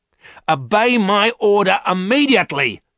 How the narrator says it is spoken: shouted the woman

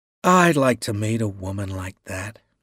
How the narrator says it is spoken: he said wearily

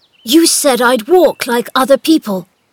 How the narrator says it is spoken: he said excitedly to Dickon

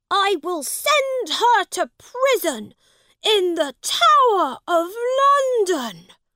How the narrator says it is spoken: he shouted

